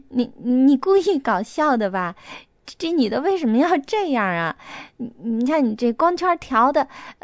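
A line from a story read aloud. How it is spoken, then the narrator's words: Laughing. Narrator (Chinese): 又笑道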